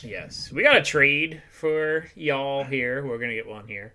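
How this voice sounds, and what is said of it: Imitated Southern accent of another person. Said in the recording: “I'm trying to sound like Daryl here with y'all ... Imitating, man. You can't imitate. ... This is straight Southern. You can't be imitating this stuff.”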